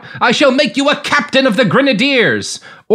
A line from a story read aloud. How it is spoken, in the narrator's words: Louis Napoleon blurted out